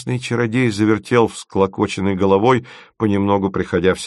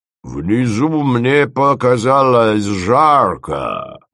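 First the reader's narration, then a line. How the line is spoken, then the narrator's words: Booming, plaintive. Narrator (Russian): прогремел он жалостливо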